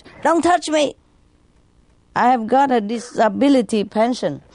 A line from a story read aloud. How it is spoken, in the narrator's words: the crippled man shouted